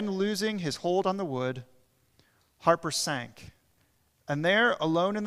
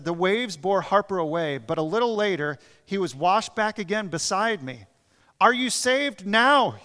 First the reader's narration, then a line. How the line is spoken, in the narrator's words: called out